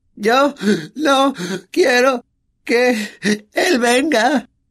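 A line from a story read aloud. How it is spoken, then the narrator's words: Exclaiming with fake sobs. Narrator (Spanish): exclamó Dudley entre fingidos sollozos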